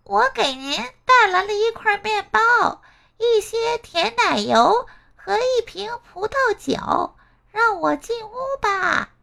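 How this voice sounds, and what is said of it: Soft, pinched-nose disguised voice. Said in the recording (Chinese): “饿狼捏着鼻子小声说”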